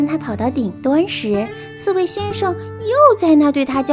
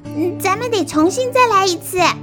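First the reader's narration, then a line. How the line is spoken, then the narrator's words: Defiant shout. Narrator (Chinese): 兔子并不服输，于是叫道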